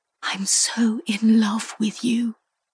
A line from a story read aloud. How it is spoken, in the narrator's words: she whispered